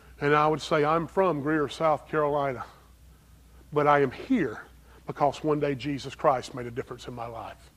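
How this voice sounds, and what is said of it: Strong Southern US accent. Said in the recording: “I talk different than most people up there ... My home family says I seem to have a strong southern accent. I don't think so, but maybe I do.”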